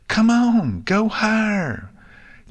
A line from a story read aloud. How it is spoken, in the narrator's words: Apple Bloom lifted a hoof to her mouth and shouted